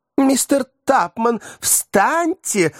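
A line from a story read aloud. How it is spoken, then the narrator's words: Exclaiming. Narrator (Russian): воскликнула Рэйчел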